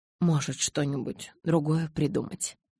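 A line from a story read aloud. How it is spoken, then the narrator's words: Said quietly. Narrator (Russian): тихо сказал Карлайл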